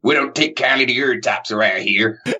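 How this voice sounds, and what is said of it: Put-on American accent. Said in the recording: “tune down the accent and start speaking American ... Not bad.”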